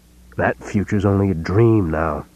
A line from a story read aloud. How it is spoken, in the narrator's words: He growled